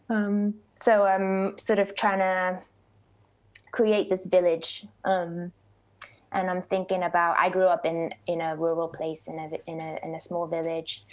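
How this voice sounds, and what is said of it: Mixed Norfolk English and American accent. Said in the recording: “Where's your accent from?... So I was born in Norfolk. I grew up in Norfolk, and then I was in the US from 18 through my 20s. So it's a mix of those two things, maybe.”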